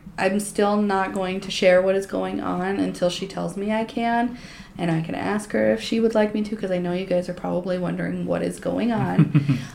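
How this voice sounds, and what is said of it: Voice still rough, unwell-sounding. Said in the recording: “excuse my voice. I'm getting over being sick.”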